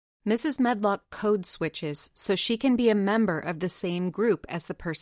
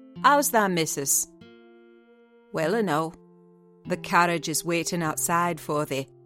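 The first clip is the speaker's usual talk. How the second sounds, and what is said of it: Broad Yorkshire accent. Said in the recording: “pronouncing his words in a queer, broad fashion, which Mary found out afterward was Yorkshire ... speaking with a Yorkshire accent herself”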